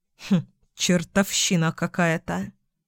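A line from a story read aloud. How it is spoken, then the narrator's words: Grumbling. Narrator (Russian): Пробурчал он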